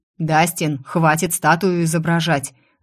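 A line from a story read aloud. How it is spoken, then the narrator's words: Bark. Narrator (Russian): рявкнул Закери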